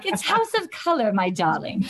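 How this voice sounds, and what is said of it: Attempted British accent. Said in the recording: “of course I can't do a British accent”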